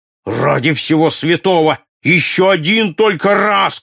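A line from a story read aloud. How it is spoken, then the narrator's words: Shouting. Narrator (Russian): кричал Джон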